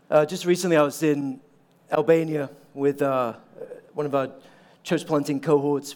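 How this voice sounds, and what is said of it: Mixed, hard-to-place accent. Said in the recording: “the accent a little bit. So, born in Norway, English mum, Irish dad, American wife, your accent would be messed up too.”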